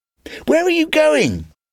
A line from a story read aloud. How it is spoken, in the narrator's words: cried